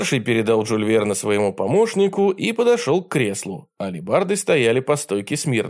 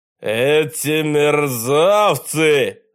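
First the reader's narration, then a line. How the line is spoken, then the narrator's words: Terrible roar. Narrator (Russian): заревел он страшным голосом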